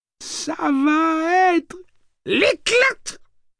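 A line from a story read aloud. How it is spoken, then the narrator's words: Excited yelp. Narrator (French): glapit Lenny, fou d'excitation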